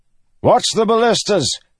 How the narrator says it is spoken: Gavilar shouted

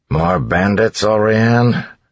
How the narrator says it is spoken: Set asked with a sigh

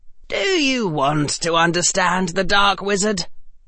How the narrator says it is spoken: Harry said, his voice now hard and grim

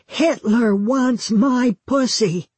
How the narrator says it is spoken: at the top of her voice said

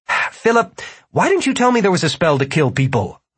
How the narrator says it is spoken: Martin sputtered

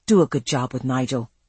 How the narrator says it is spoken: he said quietly

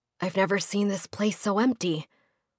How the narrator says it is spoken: Cochin whispered, his breath catching on awe

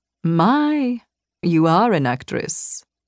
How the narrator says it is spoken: he purred

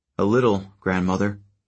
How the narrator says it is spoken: he said

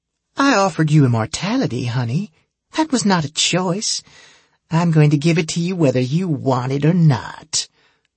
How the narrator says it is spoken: the vampire said in her sweet Southern Belle voice

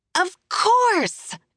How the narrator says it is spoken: Julia shouts over the music, not even close to winded

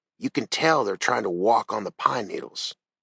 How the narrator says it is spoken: he whispered

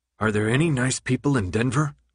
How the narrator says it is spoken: Minho muttered

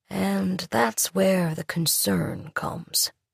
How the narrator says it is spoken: said softly

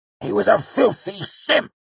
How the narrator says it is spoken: Cobb spat, seeming to find comfort in the familiar words

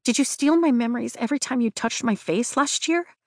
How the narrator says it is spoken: I blurt out

